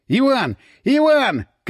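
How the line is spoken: Shouting. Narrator (Russian): крикнул он

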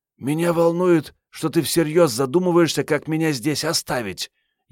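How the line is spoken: Venomous hiss, young woman. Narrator (Russian): ядовито зашипела любимая девушка

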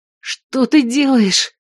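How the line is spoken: Hoarse rasp. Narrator (Russian): прохрипела она

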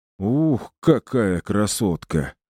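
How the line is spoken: Sighing. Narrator (Russian): вздохнул

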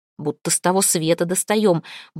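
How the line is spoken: Man grumbling while walking. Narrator (Russian): бурчал на ходу какой-то мужик

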